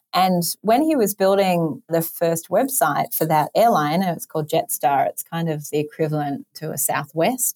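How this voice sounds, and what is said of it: Australian English accent. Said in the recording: “You might have noticed my accent, also coming from in Sydney, Australia.”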